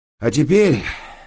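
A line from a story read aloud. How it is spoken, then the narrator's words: Sigh. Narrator (Russian): вздохнул я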